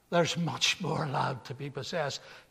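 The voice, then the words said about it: Scottish accent imitating an old man. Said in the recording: “in a Scottish accent”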